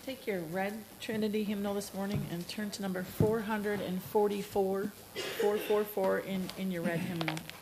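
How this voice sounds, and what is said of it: Slightly strained, unwell-sounding voice. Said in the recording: “I think my allergies are getting to me this morning and my voice is a little not great”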